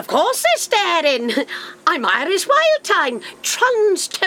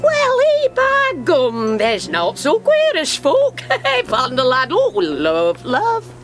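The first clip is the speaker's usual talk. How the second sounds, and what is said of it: Odd put-on regional accent. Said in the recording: “And what on Ilklymore Bartat is that accent?”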